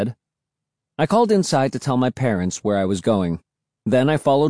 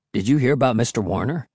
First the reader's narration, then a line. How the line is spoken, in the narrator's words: Will asked